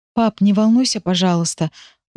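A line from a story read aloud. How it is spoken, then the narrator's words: Trembling worried mutter. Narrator (Russian): дрогнувшим голосом бормочу я, всерьез опасаясь за состояние его здоровья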